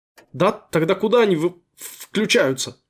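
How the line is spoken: Stammering question. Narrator (Russian): заикаясь, спросил поганка

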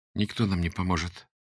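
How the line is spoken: Said quietly. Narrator (Russian): сказала Юлька тихонько

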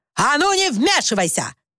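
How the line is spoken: Barked. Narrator (Russian): рявкнул Уимис

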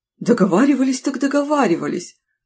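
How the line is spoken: Joyful confirmation. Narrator (Russian): столь же радостно подтвердил худой

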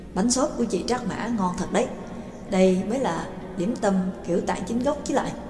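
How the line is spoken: Eager praise, mouth full. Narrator (Vietnamese): Trương Lập ăn uống nhồm nhòm, rối rít khen

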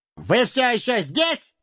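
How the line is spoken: Loud bark. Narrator (Russian): гаркнул он

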